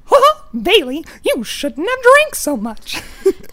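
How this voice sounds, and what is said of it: Mickey Mouse cartoon voice. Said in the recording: “I can do Mickey. ... Do Mickey.”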